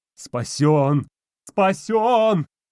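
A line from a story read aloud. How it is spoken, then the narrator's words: Frenzied battle-cry yelling. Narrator (Russian): Обезумевший Костик орал, будто шел в атаку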